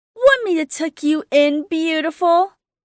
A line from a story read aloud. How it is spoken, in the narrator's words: Amity said, making a point of exaggerating her tone so hopefully it came out more joking than flirtatious